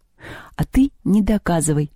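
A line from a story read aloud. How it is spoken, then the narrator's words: Calm. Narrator (Russian): спокойно сказала Лёля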